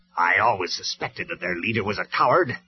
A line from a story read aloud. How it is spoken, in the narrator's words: sneered Megatron